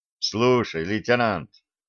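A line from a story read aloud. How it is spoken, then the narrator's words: Quiet, informal tone. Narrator (Russian): постарался снизить градус уставщины до минимума, а потому говорил негромко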